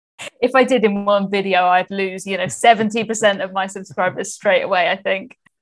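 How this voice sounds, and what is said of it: Southern English accent. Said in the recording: “I think I have quite an easy to understand English accent. I'm from the south of England”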